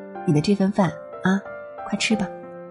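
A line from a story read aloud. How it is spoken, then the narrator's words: Lowered voice. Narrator (Chinese): 他第一次压低了音量说话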